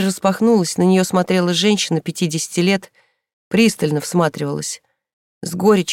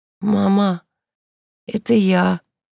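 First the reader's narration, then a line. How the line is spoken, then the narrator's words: Hoarse. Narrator (Russian): ответила Инка хриплым голосом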